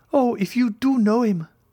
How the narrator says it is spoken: cried Julie

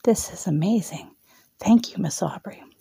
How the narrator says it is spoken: Brianna whispered

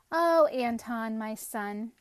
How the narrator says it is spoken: his mother would sigh

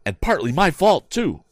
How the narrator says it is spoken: cried Tom

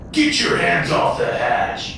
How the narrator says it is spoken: Papa Joey roared

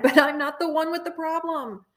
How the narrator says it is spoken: Inwardly, screamed again

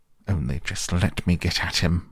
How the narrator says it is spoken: muttered Toad, grinding his teeth

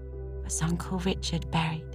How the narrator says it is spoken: she whispered to Anne

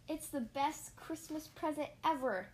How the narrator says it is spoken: cried Splat

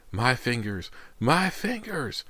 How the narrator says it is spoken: Anthony's cries sounded more like the wails of a trapped animal

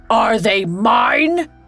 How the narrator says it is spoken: he bellowed

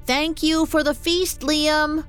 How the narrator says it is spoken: called out

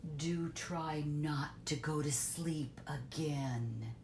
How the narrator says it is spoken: said sternly

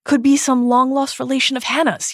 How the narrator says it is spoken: he shouts

